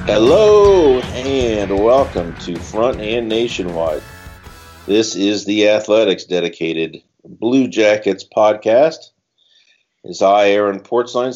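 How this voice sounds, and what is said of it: Voice affected by a cold. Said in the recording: “Sorry about the voice. I have a touch of a cold here.”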